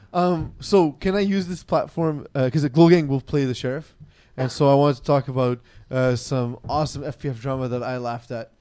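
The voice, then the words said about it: Strained, failing hoarse voice. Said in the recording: “my voice is dying because I can't drink water”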